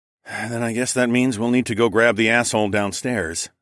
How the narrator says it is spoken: I sighed

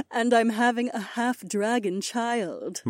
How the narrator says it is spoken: my wife chuckled

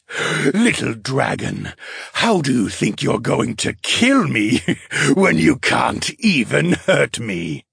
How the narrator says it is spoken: the flame spirit chuckled

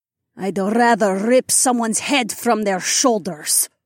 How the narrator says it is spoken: my dragon mate growled

